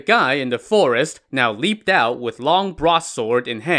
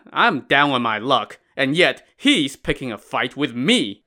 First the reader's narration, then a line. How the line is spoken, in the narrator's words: loud chuckle as a man said